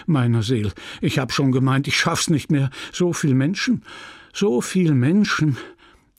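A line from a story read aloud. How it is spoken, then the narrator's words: Panting. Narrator (German): sagte keuchend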